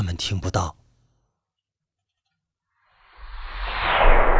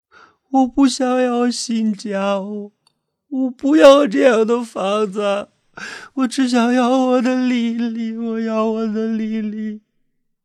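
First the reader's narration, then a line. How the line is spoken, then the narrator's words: Sobbing loudly. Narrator (Chinese): 她扑在父亲的怀里大哭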